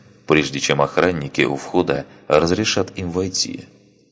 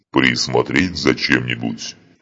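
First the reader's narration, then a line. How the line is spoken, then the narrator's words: Loud growl over music. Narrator (Russian): прорычал один из кроганов достаточно громко, чтобы его было слышно за грохотом музыки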